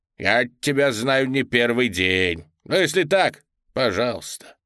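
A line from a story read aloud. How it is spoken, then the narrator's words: Grumbling, reproachful woman. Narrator (Russian): долго ворчала и упрекала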